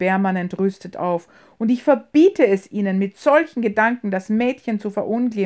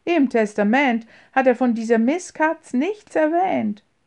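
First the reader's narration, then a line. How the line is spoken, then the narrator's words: Laughing reply. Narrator (German): erwiderte James lachend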